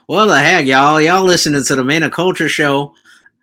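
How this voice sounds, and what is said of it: Exaggerated country accent. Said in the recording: “You gotta sound more country to sound like J-Dab.”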